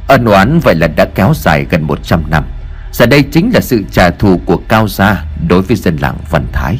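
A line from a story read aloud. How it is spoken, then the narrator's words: Soft sigh. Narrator (Vietnamese): thầy Lương khẽ thở dài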